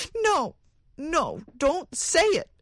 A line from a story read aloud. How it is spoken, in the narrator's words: cried the woman wildly